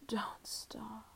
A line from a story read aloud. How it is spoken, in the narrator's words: you'd moan to me